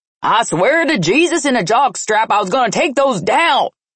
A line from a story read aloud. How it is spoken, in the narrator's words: Junior bellowed in a panic